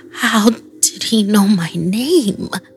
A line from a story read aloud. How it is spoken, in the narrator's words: I mumbled